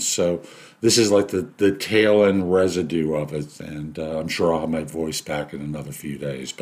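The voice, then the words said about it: Raspy voice. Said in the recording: “You've probably noticed I've got a raspy voice. Yeah, I had COVID.”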